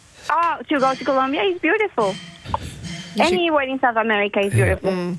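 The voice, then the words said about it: Colombian Spanish-accented English. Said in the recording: “I love that accent too”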